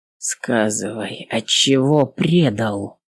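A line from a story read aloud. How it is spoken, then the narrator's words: Quiet question. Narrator (Russian): тихо спросил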